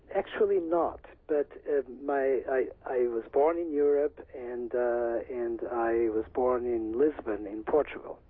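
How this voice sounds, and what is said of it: Subtle, delicate accent. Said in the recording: “a very delicate accent”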